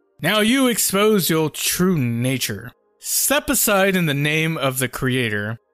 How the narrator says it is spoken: he yelled in a loud voice

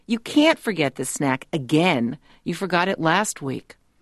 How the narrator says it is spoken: I moan

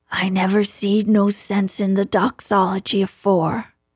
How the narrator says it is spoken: he said hoarsely

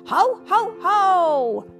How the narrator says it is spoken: Timothy called out

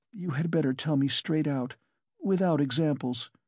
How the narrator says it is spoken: she begged, still more timidly and scarcely audible

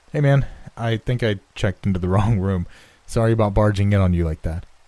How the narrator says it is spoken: I called out

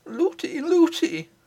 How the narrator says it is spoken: cried

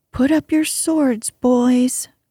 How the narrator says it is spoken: cried the newcomer

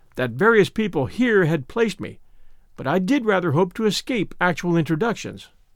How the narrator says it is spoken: continued crossly

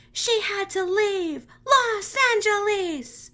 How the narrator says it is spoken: yelled the lyrics

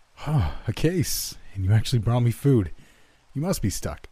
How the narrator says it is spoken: he laughed

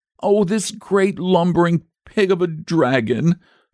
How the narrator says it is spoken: sobbed the boy

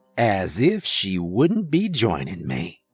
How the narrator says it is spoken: he chuckled

